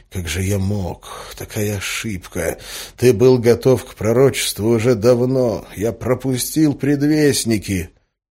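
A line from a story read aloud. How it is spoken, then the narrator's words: Quiet muttering while walking. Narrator (Russian): учителем, который тихо бормотал на ходу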